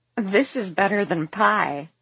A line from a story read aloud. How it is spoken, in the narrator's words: Leighton giggles happily